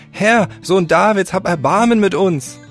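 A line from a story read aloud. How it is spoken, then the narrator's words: Crowd shouting even louder. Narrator (German): sie schrien nur umso lauter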